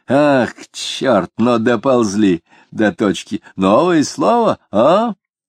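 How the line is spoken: Loud laughter. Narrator (Russian): Он снова захохотал

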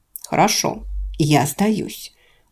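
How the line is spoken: Annoyed woman grumbling. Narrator (Russian): буркнула раздосадованная женщина

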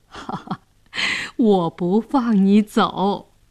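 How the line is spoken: Laughing. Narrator (Chinese): 姑姑笑着说

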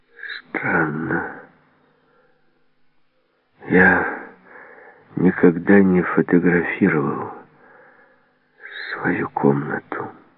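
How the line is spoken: Barely audible. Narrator (Russian): ответил еле слышно

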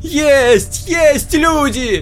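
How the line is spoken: Everyone shouting. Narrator (Russian): кричали все

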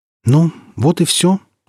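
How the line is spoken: Agitated question. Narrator (Russian): спросил Ильин взволнованно

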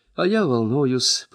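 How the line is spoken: Naive sigh. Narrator (Russian): простодушно вздохнул новичок

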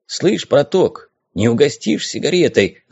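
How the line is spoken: Whisper. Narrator (Russian): зашептал он

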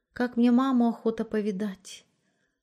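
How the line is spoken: Timid confession. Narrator (Russian): робко призналась Маришка

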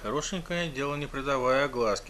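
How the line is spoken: Muttered snort. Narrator (Russian): хмыкнул про себя Джеймс

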